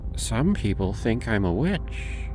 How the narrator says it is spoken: she said, her voice a low murmur

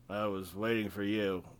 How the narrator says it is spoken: Viekko slurred

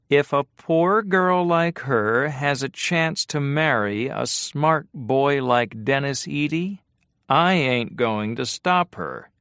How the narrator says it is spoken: she said in her flat, whining voice

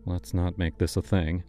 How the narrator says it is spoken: he muttered

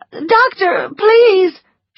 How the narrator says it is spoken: she cried

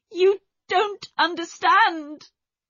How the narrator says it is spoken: she cried

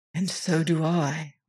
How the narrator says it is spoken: whispered Smith

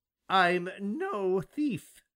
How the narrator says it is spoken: he exclaimed suddenly

